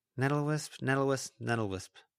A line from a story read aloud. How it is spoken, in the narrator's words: Lucy murmured